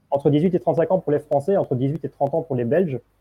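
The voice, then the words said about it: Slight Belgian French accent. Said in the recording (French): “est belge... vous avez entendu son petit accent.”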